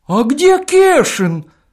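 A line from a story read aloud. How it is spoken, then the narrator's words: Sudden shout. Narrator (Russian): Вдруг закричал огородник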